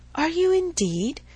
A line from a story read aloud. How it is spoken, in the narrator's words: cried he, eagerly